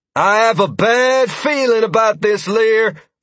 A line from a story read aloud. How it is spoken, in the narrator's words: Freya exclaimed